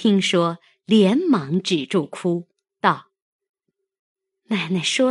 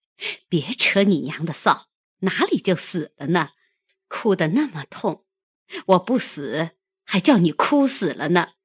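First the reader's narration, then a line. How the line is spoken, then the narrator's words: Laughing. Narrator (Chinese): 凤姐笑道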